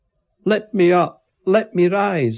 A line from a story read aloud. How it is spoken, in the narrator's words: I shouted